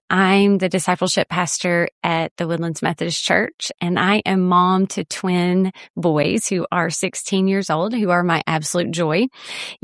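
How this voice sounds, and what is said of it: Deep South American accent. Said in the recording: “You are probably picking up from my accent that I am from somewhere in the Deep South”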